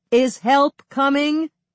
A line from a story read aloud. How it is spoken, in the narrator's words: Nick shouts